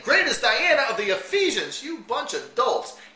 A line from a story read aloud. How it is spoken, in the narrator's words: they were full of wrath and cried out, saying